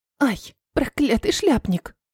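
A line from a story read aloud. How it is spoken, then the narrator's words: Hissed. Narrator (Russian): зашипела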